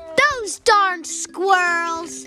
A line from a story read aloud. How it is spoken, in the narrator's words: he shook his old man fist and yelled